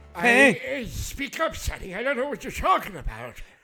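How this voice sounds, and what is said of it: Old man character voice. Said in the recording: “doing my old man voice, which kind of sounds like Bender from Futurama.”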